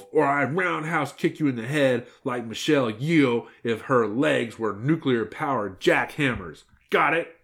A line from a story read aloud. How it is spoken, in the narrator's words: said Red Riding Hood, glaring menacingly at the wolf